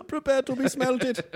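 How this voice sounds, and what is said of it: Good put-on German accent. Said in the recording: “That German accent is really good.”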